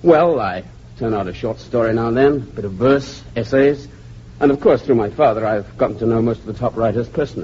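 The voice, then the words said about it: English accent. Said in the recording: “You have an English accent.”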